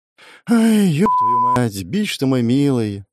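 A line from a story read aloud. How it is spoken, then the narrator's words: Sighing. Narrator (Russian): вздохнул я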